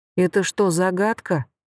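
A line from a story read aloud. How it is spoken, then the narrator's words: Heavy sigh. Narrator (Russian): тяжело вздохнула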